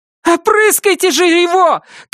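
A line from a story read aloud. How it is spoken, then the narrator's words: Shouting. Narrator (Russian): крикнула Кэт Дженсену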